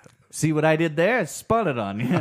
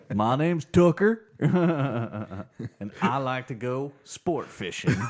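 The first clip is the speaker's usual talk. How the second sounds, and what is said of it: Put-on Southern accent. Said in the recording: “Southern accent improv.”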